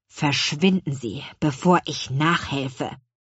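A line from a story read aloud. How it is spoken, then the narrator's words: Hissing. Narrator (German): zischte Herr Kuchenbrand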